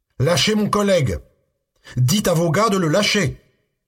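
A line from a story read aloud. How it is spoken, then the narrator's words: Yelling. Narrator (French): hurla-t-il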